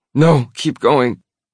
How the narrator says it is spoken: she whimpers

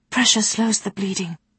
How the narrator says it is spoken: she whispered

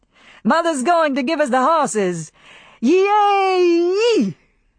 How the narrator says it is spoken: Brent shouted

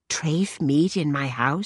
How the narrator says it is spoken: Celia whispered, like she didn't want God to hear

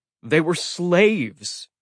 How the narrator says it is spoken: TJ said, his voice heavy with anger

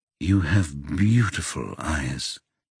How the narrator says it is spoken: he says quietly

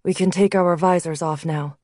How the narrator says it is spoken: Blake said, his voice devoid of emotion

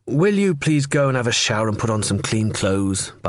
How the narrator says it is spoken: Barceló said

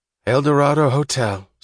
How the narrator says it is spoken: said a woman's drowsily resentful voice

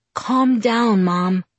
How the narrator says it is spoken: I said in my most soothing voice

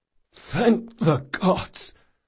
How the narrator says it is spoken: croaked Locke

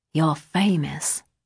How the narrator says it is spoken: she whispered

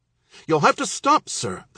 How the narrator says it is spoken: the clerk exclaimed

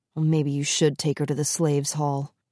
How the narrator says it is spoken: he murmured

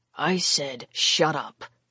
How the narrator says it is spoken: Lavos growled

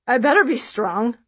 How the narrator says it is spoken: I say with a laugh

